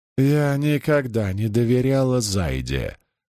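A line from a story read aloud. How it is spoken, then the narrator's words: Grumbling mutter. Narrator (Russian): пробурчала она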